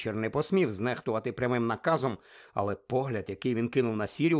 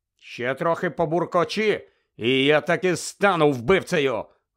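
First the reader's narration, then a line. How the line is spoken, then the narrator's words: Irritated shout. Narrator (Ukrainian): роздратовано крикнув Сіріус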